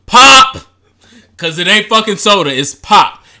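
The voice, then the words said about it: Detroit accent. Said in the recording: “I love your Detroit accent.”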